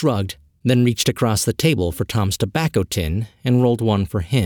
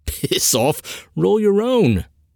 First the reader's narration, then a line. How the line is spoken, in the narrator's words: laughed Harry